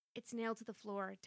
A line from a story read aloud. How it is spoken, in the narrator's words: Tad said quietly